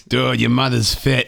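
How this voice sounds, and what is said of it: Put-on Boston accent. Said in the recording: “This doesn't work with a Boston accent.”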